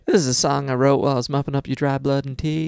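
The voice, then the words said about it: Southern American accent. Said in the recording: “D'Angelo does a great southern accent with her here as well.”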